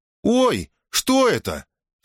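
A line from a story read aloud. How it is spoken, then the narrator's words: Startled cry. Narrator (Russian): вскрикнула она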